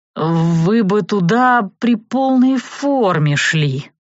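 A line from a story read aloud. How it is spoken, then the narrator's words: Uncertain drawl. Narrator (Russian): неуверенно протянул он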